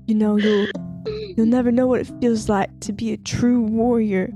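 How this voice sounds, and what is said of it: Put-on accent, changed voice. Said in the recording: “What's happening to your voice? Why do you have to do an accent ... now?”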